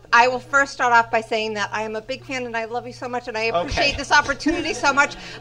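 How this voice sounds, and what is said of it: Massachusetts accent. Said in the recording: “I think I hear a Massachusetts accent.”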